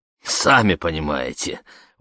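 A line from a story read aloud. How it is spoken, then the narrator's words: Chuckling. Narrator (Russian): он хохотнул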